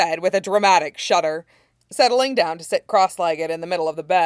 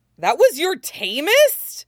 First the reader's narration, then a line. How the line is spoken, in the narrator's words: He screeched